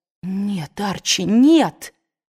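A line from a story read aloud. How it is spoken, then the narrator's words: Exclaimed. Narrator (Russian): воскликнула Мелани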